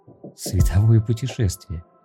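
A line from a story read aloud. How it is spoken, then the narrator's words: Giggling reply. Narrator (Russian): ответил он, хихикая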